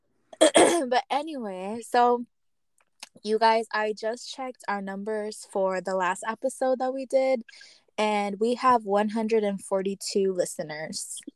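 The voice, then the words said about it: Raspy voice. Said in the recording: “my voice is kind of raspy.”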